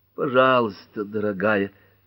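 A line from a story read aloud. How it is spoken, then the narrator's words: Moaning plea. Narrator (Russian): простонала Герми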